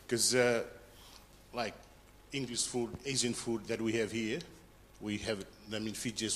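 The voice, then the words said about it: Fijian English accent, strong T sounds. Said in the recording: “the accent, it's a tough one uh, for me to understand Australian and for them to understand me ... our English is per word, and we go to the strong T sound”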